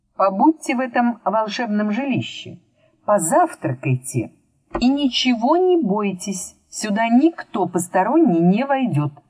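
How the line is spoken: Plain. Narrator (Russian): сказал Мурвей

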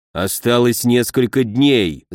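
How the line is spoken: Angry grumble. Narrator (Russian): зло проворчал он

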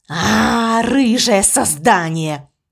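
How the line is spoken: Snorting scoff. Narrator (Russian): фыркнул он

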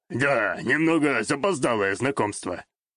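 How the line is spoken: Snort. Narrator (Russian): хмыкнул Сакурай

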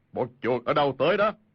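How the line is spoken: Loud shout. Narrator (Vietnamese): y quát lớn

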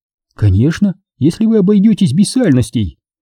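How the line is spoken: Cheerful reply. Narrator (Russian): Ответила она весело

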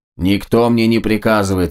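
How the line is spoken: Barking. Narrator (Russian): рявкнул Больд

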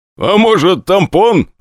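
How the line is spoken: Laughing. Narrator (Russian): посмеялся Костя

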